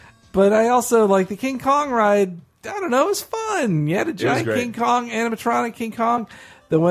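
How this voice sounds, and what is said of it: Usual voice. Nothing is said of it.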